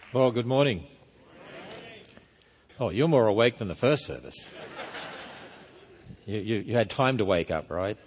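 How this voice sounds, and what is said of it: Australian accent. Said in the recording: “I have a deep southern accent... It's a down under accent, in case you're wondering. It's not New Zealand or the British. It's Australia.”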